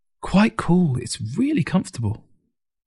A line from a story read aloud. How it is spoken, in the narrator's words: Ting exclaimed